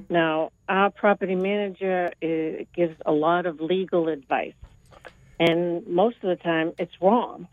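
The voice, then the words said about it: Boston accent. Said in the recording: “That Boston accent of yours, right? ... It almost sounds like it's from Lynn.”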